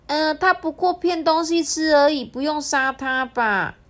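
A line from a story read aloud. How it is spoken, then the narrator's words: Shouting. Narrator (Chinese): 小狐仙大叫说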